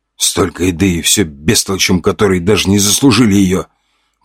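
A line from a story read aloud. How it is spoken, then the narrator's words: Grumbling soldier. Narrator (Russian): ворчал один из бойцов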